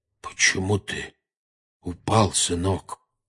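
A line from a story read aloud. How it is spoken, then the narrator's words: Unnaturally quiet. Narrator (Russian): спросил дядя Вернон неестественно тихим голосом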